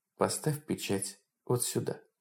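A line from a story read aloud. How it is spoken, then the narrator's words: Calm. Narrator (Russian): Женщина спокойно произнесла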